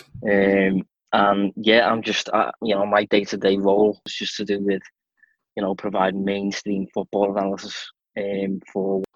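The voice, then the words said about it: Strong Scouse accent. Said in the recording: “I have a very strong Scouse accent.”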